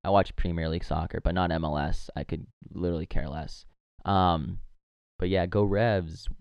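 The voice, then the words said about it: Strained, worn-out voice. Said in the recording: “my voice is still a little shot from last night at the game”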